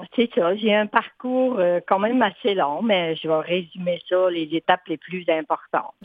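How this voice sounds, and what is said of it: Regional island French accent. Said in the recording (French): “Je viens des îles, évidemment, avec ma belle accent.”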